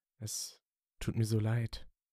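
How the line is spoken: Softly spoken. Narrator (German): sprach er leise

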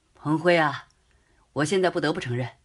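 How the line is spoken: Sighing after laughter. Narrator (Chinese): 罗非笑完之后 叹道

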